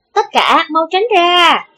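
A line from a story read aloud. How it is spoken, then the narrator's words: Brisk loud shout. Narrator (Vietnamese): Thất Thất lanh lợi lớn tiếng hô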